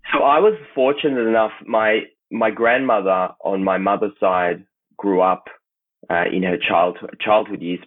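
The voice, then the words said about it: Australian accent. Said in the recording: “how does a guy from Israel have such an Australian accent?”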